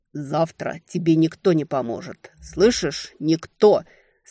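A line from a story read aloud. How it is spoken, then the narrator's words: Angry hiss, spitting blood. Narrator (Russian): Сплевывая ледяные осколки вместе с кровью, зло прошипел Огненный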